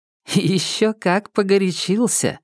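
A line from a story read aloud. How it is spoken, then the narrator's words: Laughing. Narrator (Russian): рассмеялась Марта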